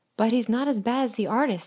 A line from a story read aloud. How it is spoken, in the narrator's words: exclaimed the donkey, who was still trying to stand up